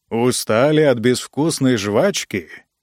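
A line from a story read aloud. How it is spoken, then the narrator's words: Booming gloomy voice. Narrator (Russian): прогудел Ранситер знакомым мрачным голосом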